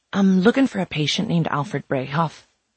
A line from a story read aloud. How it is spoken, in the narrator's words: Mary said to the man in a whisper